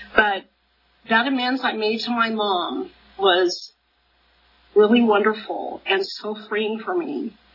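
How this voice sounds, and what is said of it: Teary, emotional voice. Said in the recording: “I'm getting a little teary.”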